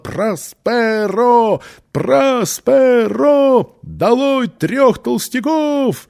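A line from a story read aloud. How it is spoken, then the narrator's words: Crowd shouting. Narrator (Russian): Толпа кричала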